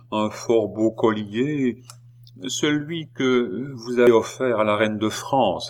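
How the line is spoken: Slow. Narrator (French): dit lentement Boehmer

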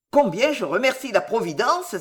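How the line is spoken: Exclamation. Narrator (French): s'écria

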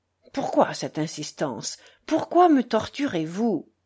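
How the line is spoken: Pained tone. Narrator (French): dit Smerdiakov d'un ton douloureux

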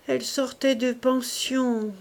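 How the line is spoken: Doleful woman's voice. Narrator (French): reprit la courtière d'une voix dolente

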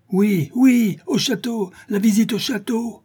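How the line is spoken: Crowd shouting. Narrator (French): cria-t-on autour d'eux

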